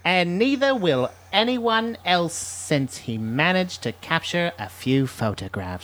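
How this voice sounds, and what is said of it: Put-on British accent. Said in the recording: “I can't even do it in a British accent ... You were doing so good.”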